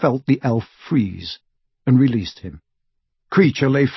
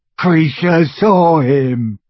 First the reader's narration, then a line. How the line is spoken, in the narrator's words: gasped the elf, as tears poured over his snout and into his mouth full of graying teeth